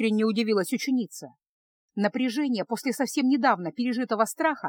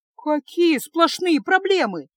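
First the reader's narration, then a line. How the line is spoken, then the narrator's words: Exclaimed. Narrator (Russian): воскликнула Феска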